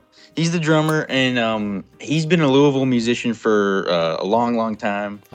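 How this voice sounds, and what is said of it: Kentucky twang accent. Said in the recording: “It's that Kentucky twang, man.”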